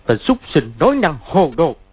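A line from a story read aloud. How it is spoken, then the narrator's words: Barking. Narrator (Vietnamese): quát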